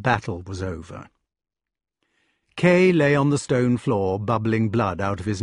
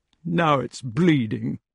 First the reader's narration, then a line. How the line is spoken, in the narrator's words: Kay said in a cold, snuffling, reproachful voice